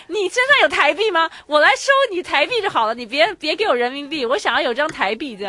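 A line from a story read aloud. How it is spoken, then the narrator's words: Angry young man. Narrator (Chinese): 那个男的很愤怒， 一个小愤青，一个小愤青还跟我们说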